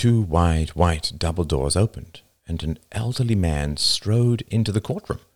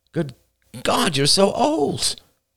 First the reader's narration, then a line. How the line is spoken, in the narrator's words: Miss Staten cried